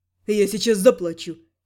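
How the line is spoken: Snorting. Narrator (Russian): фыркнул Рент

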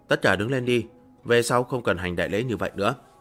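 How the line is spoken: Surprised, then light laugh. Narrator (Vietnamese): Lang Tiếu sửng sốt một chút, tiếp theo khẽ cười một cái nói

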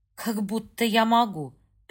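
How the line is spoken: Through gritted teeth. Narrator (Russian): процедила женщина

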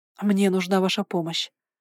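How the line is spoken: Quick and quiet. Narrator (Russian): сказала я, стараясь говорить быстро и тихо

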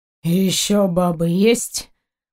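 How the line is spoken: Tired question. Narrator (Russian): устало поинтересовался Заури

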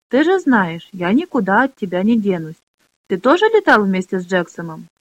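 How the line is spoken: Joyful chirping. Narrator (Russian): Заир перестал верещать и радостно зачирикал

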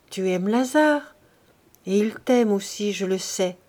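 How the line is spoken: Gentle, motherly questioning. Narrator (French): elle lui dit doucement, en mère qui questionne sa fille

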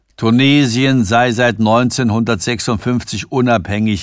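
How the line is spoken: Calm reply. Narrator (German): entgegnete Sanford ruhig

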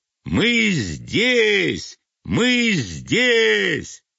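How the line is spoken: Loud. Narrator (Russian): проговорила эти слова так громко

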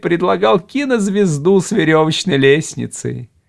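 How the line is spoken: Infectious laughter. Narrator (Russian): Хартон опять заразительно расхохотался

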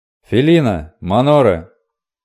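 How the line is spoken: Deafening roar, rider. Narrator (Russian): оглушительно взревел коричневый всадник

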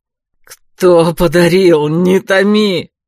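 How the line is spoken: Growl like wounded beast. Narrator (Russian): Словно раненый зверь прорычал Леройс

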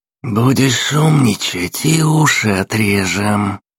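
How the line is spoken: Hissed threat. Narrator (Russian): прошипел худой

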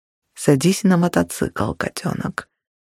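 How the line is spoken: Quiet command. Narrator (Russian): велел тихо, так, чтобы мне было слышно

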